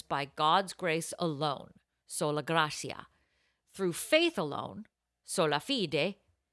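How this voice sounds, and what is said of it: Put-on Italian accent. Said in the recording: “I'm doing it with an Italian accent”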